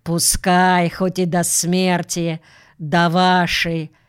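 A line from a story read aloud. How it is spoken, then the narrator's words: Mocking. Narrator (Russian): Но Авилов промолвил насмешливо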